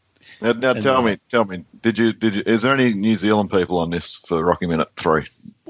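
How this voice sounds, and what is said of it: Australian accent. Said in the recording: “all the way from Australia... Just the accent that you bring to the show is, we can't get that anywhere else.”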